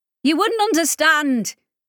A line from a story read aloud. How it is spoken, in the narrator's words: Ollie shouted over her shoulder